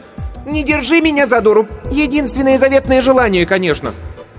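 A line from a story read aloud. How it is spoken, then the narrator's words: Shouting. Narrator (Russian): Кирстен закричала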